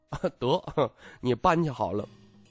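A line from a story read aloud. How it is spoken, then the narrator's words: Magnanimous laugh. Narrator (Chinese): 徐凤年大度笑道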